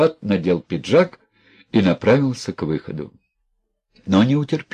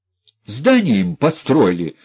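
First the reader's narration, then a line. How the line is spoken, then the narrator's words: Continued shouting. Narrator (Russian): все кричал психопат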